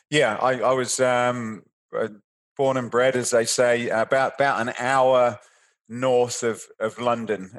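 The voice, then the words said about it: British accent. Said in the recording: “How did you grow up in the UK? ... I can tell from your accent, of course.”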